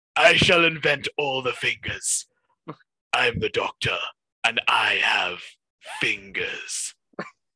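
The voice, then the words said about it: Imitates a character's voice. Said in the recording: “all these voices you're doing”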